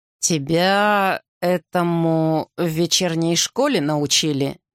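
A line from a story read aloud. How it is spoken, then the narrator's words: Slow. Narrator (Russian): Медленно спросил Арден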